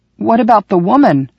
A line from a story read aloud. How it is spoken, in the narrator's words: I croaked